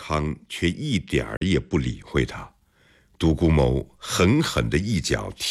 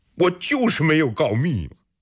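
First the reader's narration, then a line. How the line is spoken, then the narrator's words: Loud shout. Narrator (Chinese): 独孤谋冲着安康的背影大喊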